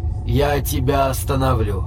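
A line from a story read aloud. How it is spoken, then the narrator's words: Soft warning. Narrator (Russian): Мягко предупреждает Шимп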